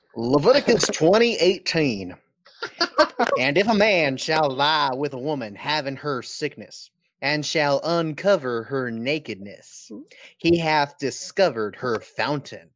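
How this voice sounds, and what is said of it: Southern preacher voice. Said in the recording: “let me get my Southern preacher voice on.”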